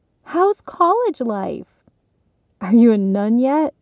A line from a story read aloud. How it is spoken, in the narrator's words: One of the cousins laughed